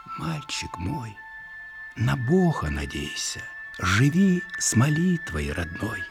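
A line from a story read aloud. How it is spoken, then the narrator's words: Bedtime whisper. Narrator (Russian): Укладывая спать, она шептала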